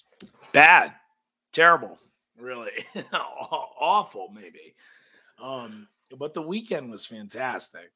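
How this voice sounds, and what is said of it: Slightly hoarse, rough voice. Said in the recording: “my voice is a little messed up from a very long weekend”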